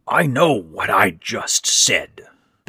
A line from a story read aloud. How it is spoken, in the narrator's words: Ben rasped